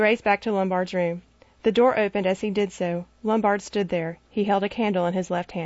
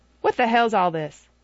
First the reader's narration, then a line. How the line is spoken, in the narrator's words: He said sharply